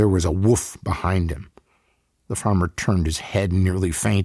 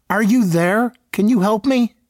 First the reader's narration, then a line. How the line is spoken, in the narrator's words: the farmer whimpered